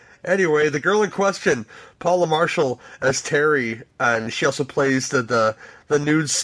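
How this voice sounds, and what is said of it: Usual voice. Nothing is said of it.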